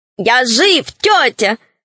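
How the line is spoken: Joyful shout. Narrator (Russian): радостно закричал Свен

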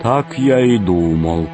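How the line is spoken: Gloomy. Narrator (Russian): сказал он мрачно

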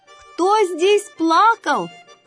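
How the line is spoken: Shouting. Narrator (Russian): крикнул он

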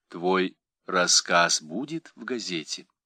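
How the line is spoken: Calm question, mother. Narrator (Russian): Мать спокойно спросила

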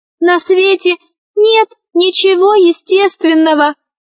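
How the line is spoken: Shrill little voice, ball. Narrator (Russian): ответил пронзительным голоском мяч

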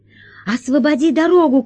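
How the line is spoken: Shouting. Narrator (Russian): кричала Алиса блохобою

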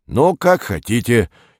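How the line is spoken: Angry bark. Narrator (Russian): сердито рявкнул бритый

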